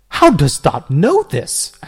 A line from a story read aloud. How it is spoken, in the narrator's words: asked Tibertius